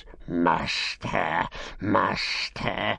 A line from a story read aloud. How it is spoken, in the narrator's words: he hissed